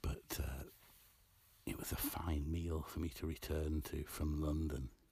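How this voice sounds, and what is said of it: Near whisper, hushed voice. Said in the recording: “I'm whispering almost”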